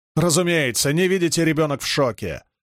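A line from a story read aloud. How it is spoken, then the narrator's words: Barking shout. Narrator (Russian): гаркнул Гуга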